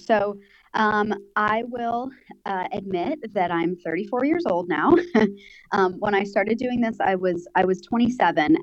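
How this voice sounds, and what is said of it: American accent. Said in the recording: “I'm from America, for those of you that can't tell from my accent.”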